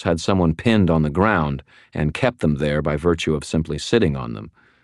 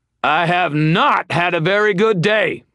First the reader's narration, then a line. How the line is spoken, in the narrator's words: bellowing